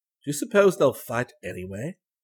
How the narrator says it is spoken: asked Crane

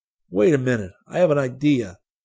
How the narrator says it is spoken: Professor Gordon suddenly exclaimed

